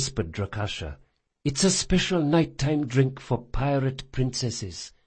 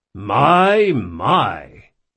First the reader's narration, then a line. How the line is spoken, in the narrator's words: he said loudly